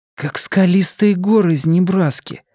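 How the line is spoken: Breathed out. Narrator (Russian): выдохнул Джейк

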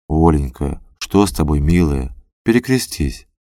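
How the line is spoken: Tender. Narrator (Russian): Пустовалов говорил ей нежно

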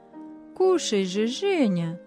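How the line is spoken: Gentle coaxing. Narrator (Russian): ласково уговаривали его хозяева

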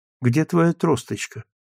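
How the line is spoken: Sleepy, half-aware question. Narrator (Russian): спросила сонным голосом, едва понимая, что говорит

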